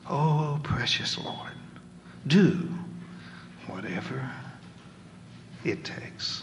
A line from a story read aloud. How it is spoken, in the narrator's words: you quietly cry, even as your heart breaks